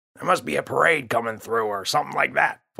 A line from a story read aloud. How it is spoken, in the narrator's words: Father grumbled